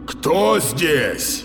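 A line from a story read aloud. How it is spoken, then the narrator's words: Defiant shout. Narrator (Russian): Вызывающе крикнул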